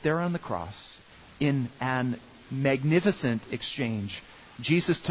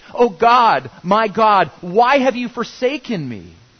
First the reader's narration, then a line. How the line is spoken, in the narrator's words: He cried out in anguish